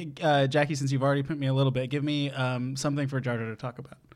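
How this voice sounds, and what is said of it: Usual voice. Nothing is said of it.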